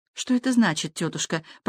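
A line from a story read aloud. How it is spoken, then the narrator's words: Whisper. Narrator (Russian): прошептала Бланш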